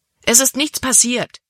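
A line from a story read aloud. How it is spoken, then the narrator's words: Exclaiming. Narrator (German): rief Libby aus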